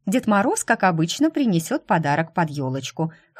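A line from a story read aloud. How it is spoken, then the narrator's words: Snort. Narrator (Russian): хмыкнула она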